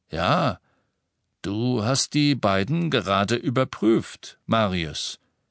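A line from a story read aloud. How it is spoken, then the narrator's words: Slightly sluggish voice. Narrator (German): der mit leicht träger Stimme sagte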